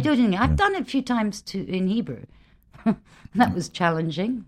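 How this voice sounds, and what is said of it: British accent. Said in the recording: “They love my British accent.”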